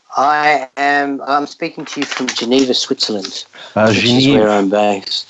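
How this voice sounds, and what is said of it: Australian accent. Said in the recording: “Another Aussie accent”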